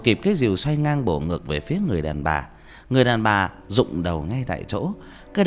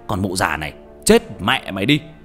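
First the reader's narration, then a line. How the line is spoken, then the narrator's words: Angry shout. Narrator (Vietnamese): quát lên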